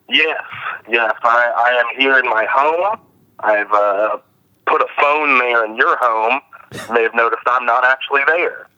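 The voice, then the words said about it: Sick, odd-sounding voice. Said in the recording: “You sound weird. ... I have the flu.”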